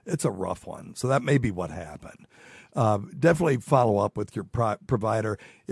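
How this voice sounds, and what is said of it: Rough, congested-sounding voice. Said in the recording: “I'm having allergies today. They're just killing me today. Sorry, my voice sounds like shit.”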